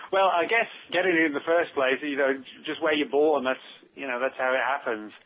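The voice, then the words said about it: British accent. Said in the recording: “a cool British accent”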